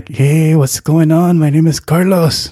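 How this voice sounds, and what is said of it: Exaggerated stereotypical Hispanic accent. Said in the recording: “they all make Hispanic people sound the same way ... fix the accent”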